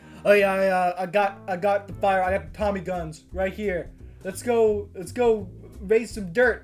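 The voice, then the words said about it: Low baritone character voice. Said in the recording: “I'm Franco here of the low and the baritone.”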